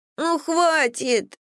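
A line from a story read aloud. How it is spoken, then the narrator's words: Whimpering while struggling. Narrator (Russian): захныкал он, брыкаясь и вырываясь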